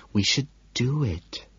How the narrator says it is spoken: she says softly

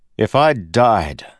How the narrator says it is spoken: Kelsier said, loudly,

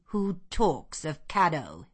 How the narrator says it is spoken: said he gruffly

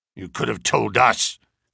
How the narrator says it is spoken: growled Mr

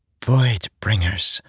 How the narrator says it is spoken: Syl whispered

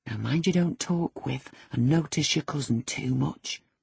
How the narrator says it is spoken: whispered instructions

